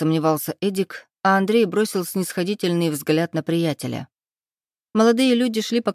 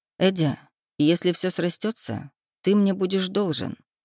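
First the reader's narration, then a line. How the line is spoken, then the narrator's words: Gentle reminder. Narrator (Russian): мягко напомнил Андрей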